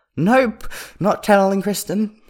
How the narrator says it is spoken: says, a little hysterically

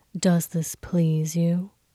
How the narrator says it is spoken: Hua Cheng breathed into his ear

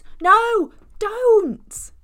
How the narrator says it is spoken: Robin shouts

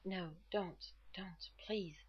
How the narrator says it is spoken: Rodney blurted

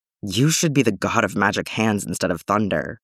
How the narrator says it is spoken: she mutters

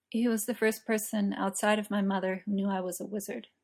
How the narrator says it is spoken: Merlin says quietly

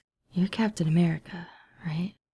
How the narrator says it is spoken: James says in a low voice

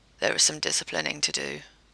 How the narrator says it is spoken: Jared said calmly

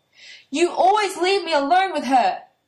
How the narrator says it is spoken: Natsumi screams, furious

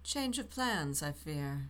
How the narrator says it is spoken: said in a silky tone

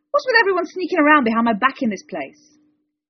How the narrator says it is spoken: The goblin squeaked

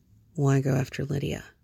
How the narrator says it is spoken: John murmured

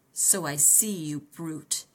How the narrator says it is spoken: the villain sneered

